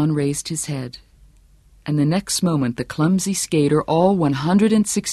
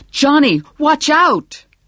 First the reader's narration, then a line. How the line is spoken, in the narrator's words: He rose to his feet and shouted